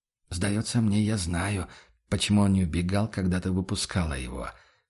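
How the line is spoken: Near whisper. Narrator (Russian): почти шепотом подытожил Курт

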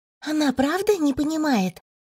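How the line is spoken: Loud whisper. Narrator (Russian): громким шепотом спросила Эдна у оборотня

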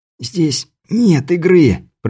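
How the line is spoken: Hoarse wheeze. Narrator (Russian): просипел Беляев

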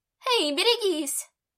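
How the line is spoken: Young woman shouting. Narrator (Russian): прокричала девушка

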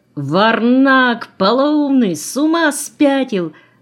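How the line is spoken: Frightened yell. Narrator (Russian): заорал напуганный Митяй

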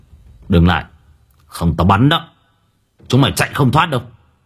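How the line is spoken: Cold. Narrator (Vietnamese): lạnh lùng

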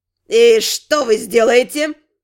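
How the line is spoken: Haughty snort. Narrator (Russian): Надменно фыркнул консорт

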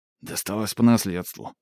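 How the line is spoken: Grumbled mutter. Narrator (Russian): буркнул Хавьер

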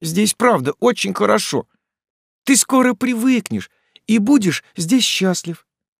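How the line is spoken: Exclaimed. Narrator (Russian): воскликнул Фрем

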